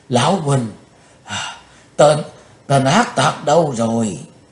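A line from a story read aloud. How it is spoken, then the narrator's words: Breathless panting question. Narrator (Vietnamese): Trừng Mộng Giả Tiên vừa thở hổn hển vừa hỏi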